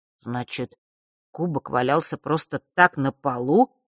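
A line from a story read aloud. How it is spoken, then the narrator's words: Confused drawl. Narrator (Russian): растерянно протянул Фэш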